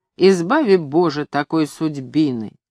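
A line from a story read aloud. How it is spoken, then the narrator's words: Grumbling. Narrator (Russian): Смурый, более других похожий на свирепого разбойника, угрюмо ворчал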